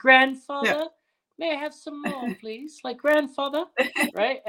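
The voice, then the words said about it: Put-on British accent. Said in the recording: “accent too, like the little British accent.”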